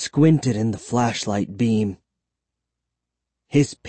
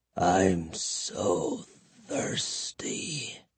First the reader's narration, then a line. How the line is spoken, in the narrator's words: he moaned in a hoarse whisper